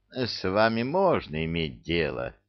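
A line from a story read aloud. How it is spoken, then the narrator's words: Regretful sigh. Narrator (Russian): с сожалением вздохнул атаман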